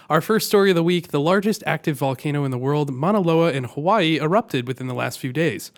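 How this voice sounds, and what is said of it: Voice affected by a cold. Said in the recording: “excuse my voice. I'm getting over a cold.”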